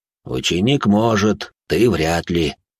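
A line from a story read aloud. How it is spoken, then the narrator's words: Grumbling. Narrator (Russian): проворчал он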